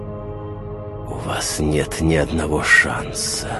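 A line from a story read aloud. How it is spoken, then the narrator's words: Hissed. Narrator (Russian): прошипела темнота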